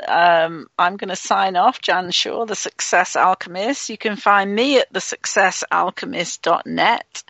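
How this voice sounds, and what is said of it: English accent. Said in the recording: “my English accent doesn't always sound like the right spelling”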